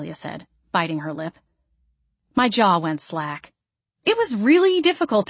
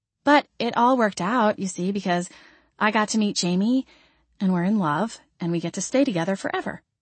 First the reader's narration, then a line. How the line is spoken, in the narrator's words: she said, smiling sweetly